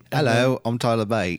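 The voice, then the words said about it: Imitated British accent. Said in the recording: “accent? ... that's every British wrestler now at this point ... what was another British wrestler?”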